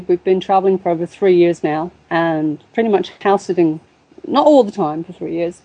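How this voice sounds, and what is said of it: British English accent. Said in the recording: “an international relationship by the sounds of these accents. ... I'm originally from Boston, Lincolnshire, UK.”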